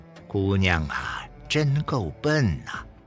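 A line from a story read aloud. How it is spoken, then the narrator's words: Inner lament. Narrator (Chinese): 潘荣心中哀叹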